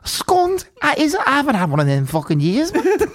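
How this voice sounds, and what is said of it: Put-on regional accent. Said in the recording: “Your accent.”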